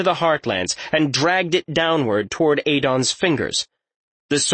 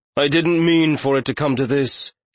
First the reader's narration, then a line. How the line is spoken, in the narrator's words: Adon said, sighing